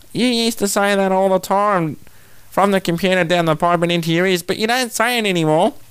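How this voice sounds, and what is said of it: Imitation of his mother's voice. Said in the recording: “She's probably going to hit me for that impersonation”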